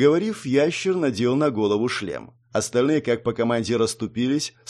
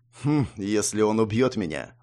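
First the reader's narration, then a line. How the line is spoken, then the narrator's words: Snorted. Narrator (Russian): фыркнул Хас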